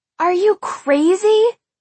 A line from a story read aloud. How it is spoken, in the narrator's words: She shrieked